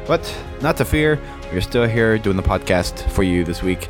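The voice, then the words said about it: Sick, under-the-weather voice. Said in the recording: “you may tell from my voice I'm a little under the weather today ... sick”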